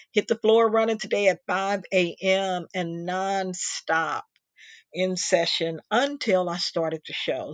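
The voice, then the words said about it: Tired, scratchy voice. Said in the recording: “my voice is getting a little bit tired and scratchy”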